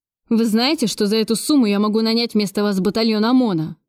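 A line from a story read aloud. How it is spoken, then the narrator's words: Angry question. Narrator (Russian): зло спросил Кравцов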